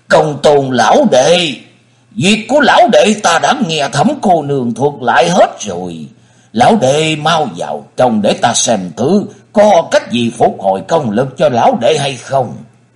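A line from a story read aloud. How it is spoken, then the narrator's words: Loud laughing speech. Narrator (Vietnamese): Thần Nhất Túy cười lớn nói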